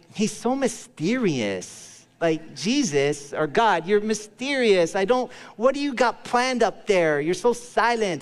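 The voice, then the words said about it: Teenage California valley girl voice. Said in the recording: “talking like a high school girl that's 14 in California. That's just my impression”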